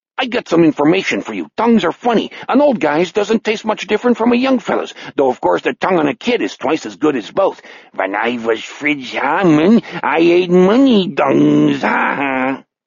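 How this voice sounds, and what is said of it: Strange, alien-sounding German accent. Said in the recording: “That extraterrestrial version of a German accent burst out of the fisherman like a second voice.”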